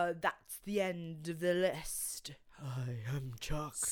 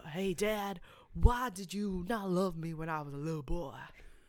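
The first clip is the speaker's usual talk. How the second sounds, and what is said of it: Badly imitated character accent. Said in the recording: “That's such a bad accent.”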